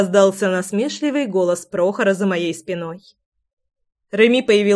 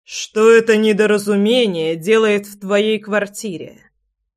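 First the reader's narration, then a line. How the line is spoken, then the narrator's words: Icy thundering voice. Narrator (Russian): Ледяным голосом прогремел Влад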